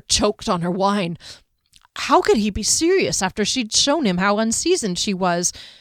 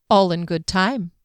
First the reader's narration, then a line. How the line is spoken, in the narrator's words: he said